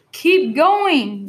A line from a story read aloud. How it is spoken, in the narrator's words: yelled Fat